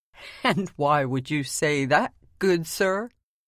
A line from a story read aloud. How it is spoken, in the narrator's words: inquired with a laugh